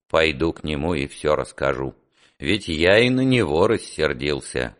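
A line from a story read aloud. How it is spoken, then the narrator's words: Gloomy. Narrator (Russian): мрачно сказал Петр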